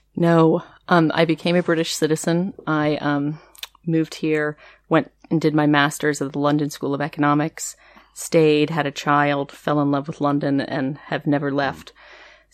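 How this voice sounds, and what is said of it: Non-London accent. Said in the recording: “it's not a London accent you've got there”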